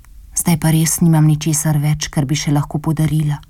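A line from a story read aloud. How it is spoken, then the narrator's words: Poor girl whispering to herself. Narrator (Slovenian): je zašepetala sama pri sebi uboga deklica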